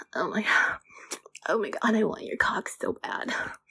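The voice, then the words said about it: Sultry vocal fry voice. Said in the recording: “I've been learning about vocal fry. That's what that's called.”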